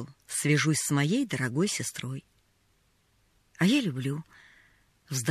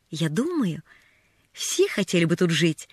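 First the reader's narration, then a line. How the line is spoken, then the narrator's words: Exclaiming. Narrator (Russian): воскликнула она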